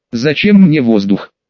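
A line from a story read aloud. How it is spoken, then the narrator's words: Loud exhale. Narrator (Russian): С шумом выдохнула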